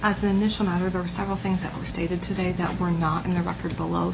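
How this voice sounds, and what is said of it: Quiet, strained, failing voice. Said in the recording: “Could you speak a little louder? ... I'm losing my voice. ... if I keep speaking quietly”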